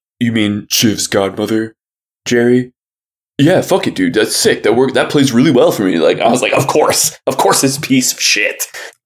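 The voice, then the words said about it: Imitates a TV character's voice. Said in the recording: “your Kendall impression there was pretty good ... it's gotten worse”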